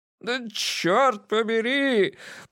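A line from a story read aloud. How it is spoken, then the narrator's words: Anguished groan. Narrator (Russian): простонал маршал, обхватив голову руками и покачиваясь взад вперед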